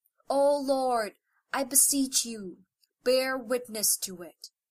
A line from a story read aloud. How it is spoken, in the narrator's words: The Prophet again exclaimed